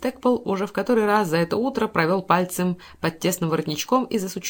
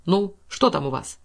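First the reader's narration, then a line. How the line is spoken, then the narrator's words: Angry question. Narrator (Russian): спросил он сердито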